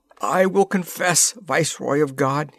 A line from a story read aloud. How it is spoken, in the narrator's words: he cried